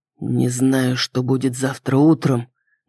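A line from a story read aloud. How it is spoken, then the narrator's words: Hoarse voice. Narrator (Russian): хриплым голосом заявил Рон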